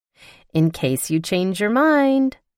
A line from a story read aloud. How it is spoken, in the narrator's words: she chirped